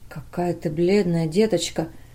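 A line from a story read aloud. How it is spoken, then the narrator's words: Whisper. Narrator (Russian): прошептал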